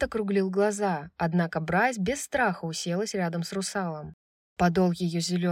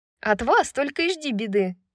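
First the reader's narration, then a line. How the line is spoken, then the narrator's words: Giggling. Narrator (Russian): Хихикнула Брайс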